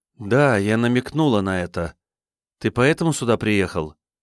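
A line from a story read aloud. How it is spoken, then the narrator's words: Sad guilty question. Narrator (Russian): грустно спросила, чувствуя свою ответственность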